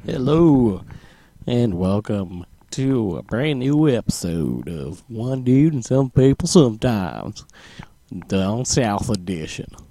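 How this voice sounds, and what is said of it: Bad put-on Southern accent. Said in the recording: “Bad Southern accent.”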